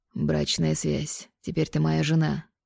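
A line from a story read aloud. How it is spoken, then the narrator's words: Hoarse reply. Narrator (Russian): ответил он хриплым тоном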